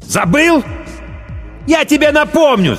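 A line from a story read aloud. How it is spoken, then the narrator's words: Shout. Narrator (Russian): закричал Ким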